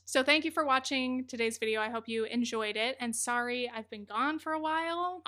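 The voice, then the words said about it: Strained, fading voice. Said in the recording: “As you can hear, I'm kind of like losing my voice”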